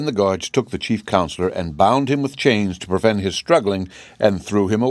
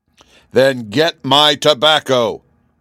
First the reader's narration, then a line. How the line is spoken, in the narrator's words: roared the king